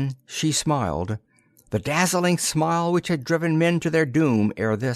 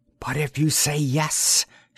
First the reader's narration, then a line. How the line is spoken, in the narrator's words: she whispered